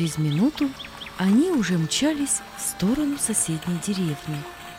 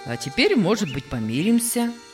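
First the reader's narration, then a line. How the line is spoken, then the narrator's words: Calm, man. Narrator (Russian): спокойно добавил доктор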